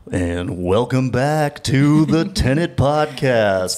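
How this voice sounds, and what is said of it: Radio announcer voice. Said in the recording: “I can do a really good radio voice.”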